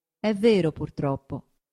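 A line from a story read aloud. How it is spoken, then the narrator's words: Plain. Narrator (Italian): disse il cardinale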